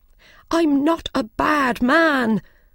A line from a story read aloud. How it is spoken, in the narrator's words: the Mad Hatter cried